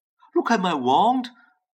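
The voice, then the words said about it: Shaky voice. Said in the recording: “in a shaky voice”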